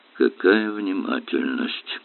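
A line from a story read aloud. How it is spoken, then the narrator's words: Grumbling. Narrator (Russian): проворчал Эллери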